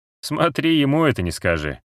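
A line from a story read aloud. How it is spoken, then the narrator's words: Smirking remark. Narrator (Russian): хмыкнул Джоук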